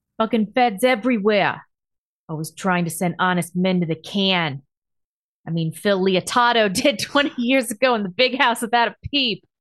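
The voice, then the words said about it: Put-on New Jersey accent. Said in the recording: “read in a New Jersey accent ... My best ... Yeah, pretty good.”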